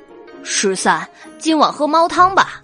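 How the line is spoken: Fierce, furious. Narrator (Chinese): 丽被抓伤，大怒，凶恶的说道

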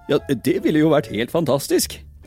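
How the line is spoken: Surprised. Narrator (Norwegian): sa Cratchit overrasket

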